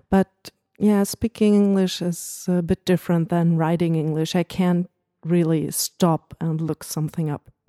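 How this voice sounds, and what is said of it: German accent speaking English. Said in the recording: “my horrible German accent. Well, I know it's not that horrible.”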